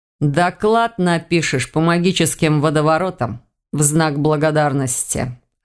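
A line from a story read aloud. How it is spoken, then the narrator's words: Amused grunt. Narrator (Russian): хмыкнул Сильф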